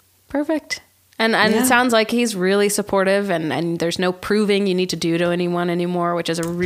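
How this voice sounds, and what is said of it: Usual voice. Nothing is said of it.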